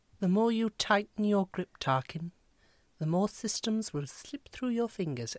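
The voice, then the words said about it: Impression of a female film character. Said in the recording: “That is the best impression of Princess Leia I've ever heard.”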